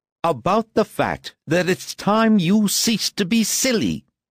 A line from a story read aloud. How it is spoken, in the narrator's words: cried her mother